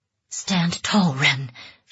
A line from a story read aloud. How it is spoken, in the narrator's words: she whispered